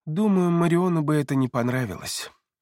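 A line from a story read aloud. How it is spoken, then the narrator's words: Gentle reply. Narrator (Russian): мягко ответил Люциан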